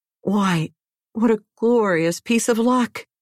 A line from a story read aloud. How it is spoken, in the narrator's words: he cried